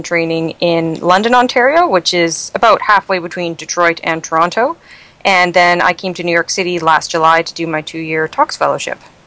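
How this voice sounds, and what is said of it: Canadian accent. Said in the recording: “everyone could tell from your accent that you're a Canadian ... New York has not completely made you lose your accent”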